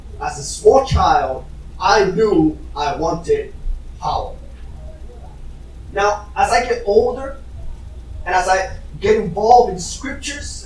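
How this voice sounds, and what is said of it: Strong foreign accent. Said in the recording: “I had a strong accent at the time, and I still do ... the weird accent”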